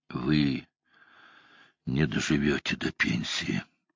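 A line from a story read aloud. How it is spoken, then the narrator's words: Grim joke. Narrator (Russian): мрачно пошутил де Граф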